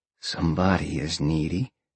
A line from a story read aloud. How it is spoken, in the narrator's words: Sean whispered